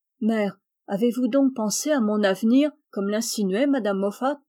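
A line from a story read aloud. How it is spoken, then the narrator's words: Timid question. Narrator (French): demanda timidement Meg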